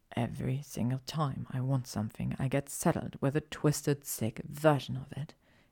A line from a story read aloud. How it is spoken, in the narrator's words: he whispered